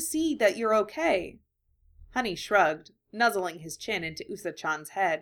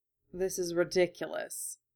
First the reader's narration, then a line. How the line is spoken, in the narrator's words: Hideyoshi muttered